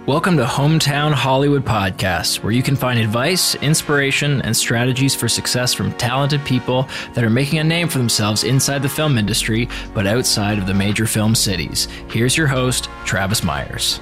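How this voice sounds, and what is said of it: Announcer-style radio voice. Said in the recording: “radio voice ... It doesn't have a lot of confidence behind it, but it's focused”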